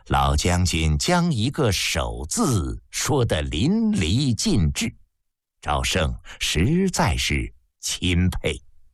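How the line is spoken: Laughing. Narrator (Chinese): 平原君笑道

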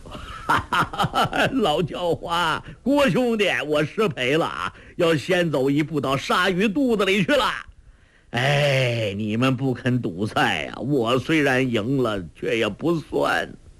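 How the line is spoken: Laughing shout despite pain. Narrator (Chinese): 周伯通胸口又剧痛起来，他大笑着叫道

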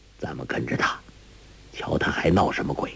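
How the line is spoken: Low voice. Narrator (Chinese): 那道人低声说

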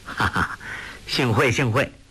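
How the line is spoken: Feigned laugh, hidden contempt. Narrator (Chinese): 杨康心中好生瞧他不起，假装不识，笑道

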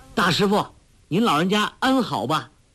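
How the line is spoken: Loud call. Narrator (Chinese): 高声叫道

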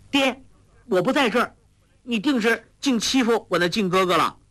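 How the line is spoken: Exclaiming. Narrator (Chinese): 华筝叫道

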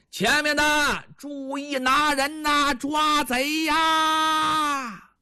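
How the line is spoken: Loud shouting. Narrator (Chinese): 朱仝他们大声喊

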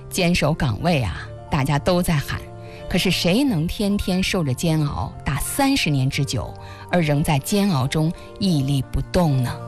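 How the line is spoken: Sighing, reflective. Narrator (Chinese): 老舍先生感叹道

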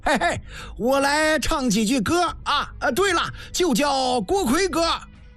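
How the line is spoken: Laughing shout, army cook. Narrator (Chinese): 炊营军吏笑喊

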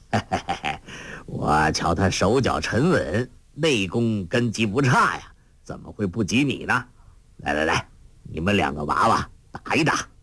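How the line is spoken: Laughing. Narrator (Chinese): 洪七公笑道

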